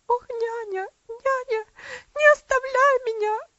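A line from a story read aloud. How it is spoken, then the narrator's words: Girl crying out, sobbing convulsively. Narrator (Russian): закричала девочка, прижимаясь к ней в конвульсивных рыданиях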